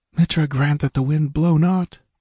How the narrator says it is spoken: Valeria breathed

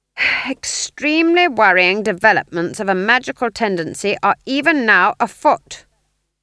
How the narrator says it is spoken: she said loudly

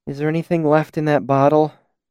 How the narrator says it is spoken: She asked wearily

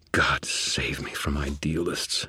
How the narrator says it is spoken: Thomas muttered

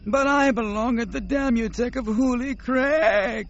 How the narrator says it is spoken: Nomanor wailed

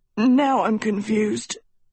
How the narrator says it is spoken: Tedros wheezed

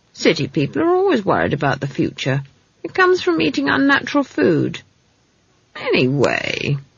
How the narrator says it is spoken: added, suddenly realizing that she was whining

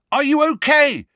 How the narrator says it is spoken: he yelled as another spell soared inches over their heads

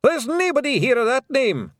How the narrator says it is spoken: shouted Rob Anybody

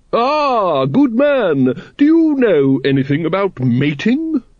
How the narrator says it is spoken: it boomed

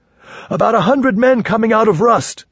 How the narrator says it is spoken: someone shouted

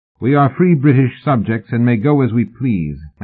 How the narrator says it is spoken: Mallory said firmly

